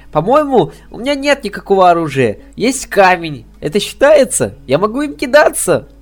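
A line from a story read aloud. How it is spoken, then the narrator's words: Cheerful. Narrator (Russian): радостно предложила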